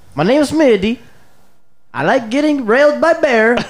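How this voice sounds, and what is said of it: Poor Borat-like put-on foreign accent. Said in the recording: “This is a terrible accent... It was more Borat-ish, really.”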